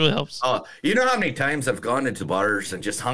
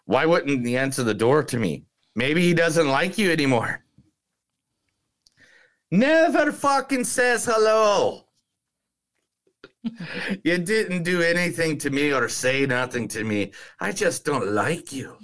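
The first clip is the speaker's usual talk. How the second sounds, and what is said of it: Put-on Irish accent. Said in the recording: “Irish accent ... Thank you for doing that, Irish accent.”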